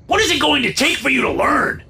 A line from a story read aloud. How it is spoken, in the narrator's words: Dad said, his voice oddly high-pitched